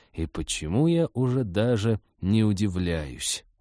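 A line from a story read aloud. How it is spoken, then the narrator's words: Gloomy mutter. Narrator (Russian): мрачно пробормотал спецагент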